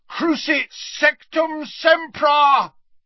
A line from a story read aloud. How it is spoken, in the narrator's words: bellowed Harry from the floor